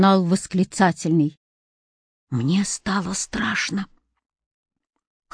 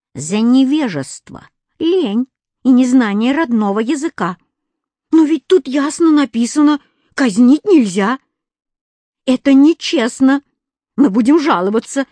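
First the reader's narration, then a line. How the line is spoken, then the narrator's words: Wailing, yelling. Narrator (Russian): вопил Кузя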